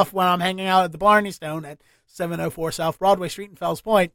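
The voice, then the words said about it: Baltimore accent. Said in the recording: “my Baltimore accent come out to you, hon ... just the way you said stone there, definitely”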